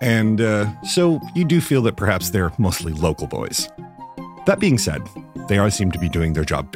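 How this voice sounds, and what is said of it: Usual voice. Nothing is said of it.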